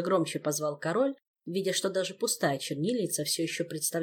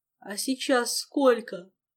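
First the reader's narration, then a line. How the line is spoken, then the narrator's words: Sleepy mumble. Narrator (Russian): сонно промычал хозяин дома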